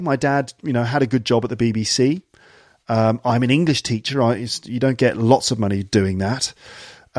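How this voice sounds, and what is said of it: Clear British received pronunciation. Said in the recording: “I do speak received pronunciation. I do speak quite clearly. I don't have a strong regional accent”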